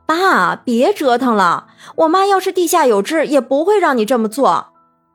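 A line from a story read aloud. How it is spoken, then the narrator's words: Calling out. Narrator (Chinese): 她叫道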